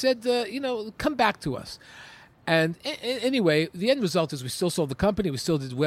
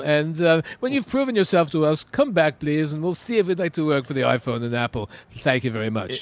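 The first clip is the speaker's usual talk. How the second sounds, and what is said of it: Pompous put-on British accent. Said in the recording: “Is that a Japanese accent that you're working on? ... No. That is a very British, pompous, feed me a grape accent.”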